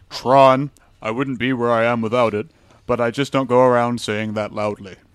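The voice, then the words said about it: Imitates another person's voice. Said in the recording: “I will now emulate his voice ... That's my Chris Handel impression ... It's a horrible Chris Handel impression”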